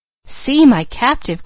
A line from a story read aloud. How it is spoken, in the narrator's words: cried Leslie